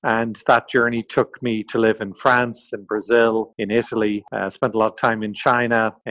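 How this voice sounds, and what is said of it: Irish accent. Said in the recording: “as you can tell from my accent, in Ireland”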